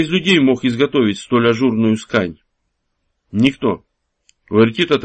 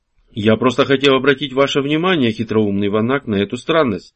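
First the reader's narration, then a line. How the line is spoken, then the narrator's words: Rapid merchant chatter. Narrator (Russian): затараторил торговец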